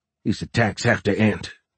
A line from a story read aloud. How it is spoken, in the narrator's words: Fisher grumbled